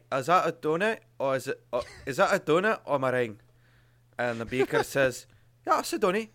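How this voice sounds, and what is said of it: Put-on Glaswegian accent. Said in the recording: “It sounds like you're from Glasgow right now. Like you do that in Glasgow accent. ... It's Glaswegian, yeah.”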